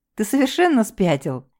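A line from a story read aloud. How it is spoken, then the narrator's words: Giggling. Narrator (Russian): хихикнула я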